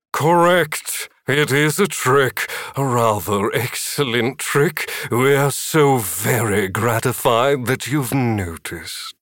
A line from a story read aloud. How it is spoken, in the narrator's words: A booming male voice said